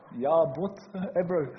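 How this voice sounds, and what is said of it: Put-on Afrikaans accent. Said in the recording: “I love that accent. They talk like that.”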